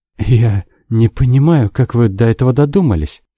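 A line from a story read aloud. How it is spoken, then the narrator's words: Trembling, forced calm. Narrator (Russian): сказала она дрожащим голосом, пытаясь сохранить спокойствие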